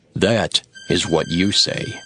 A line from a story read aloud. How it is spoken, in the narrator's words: Jesus answered